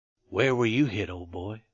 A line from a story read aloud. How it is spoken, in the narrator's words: he asked in a brotherly tone